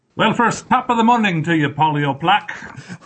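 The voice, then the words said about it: Weak put-on Irish accent. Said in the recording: “I wish I could do a good Irish accent, but I can't”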